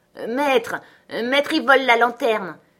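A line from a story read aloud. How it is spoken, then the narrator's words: Old man shouting. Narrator (French): cria le vieux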